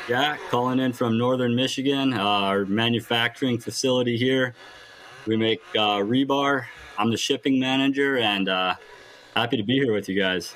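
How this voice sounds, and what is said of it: Northern Michigan accent. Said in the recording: “I love the accent, too. It's very, very up there.”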